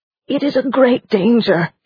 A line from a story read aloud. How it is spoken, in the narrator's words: he moaned